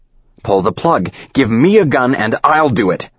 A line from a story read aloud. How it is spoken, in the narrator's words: he's yelling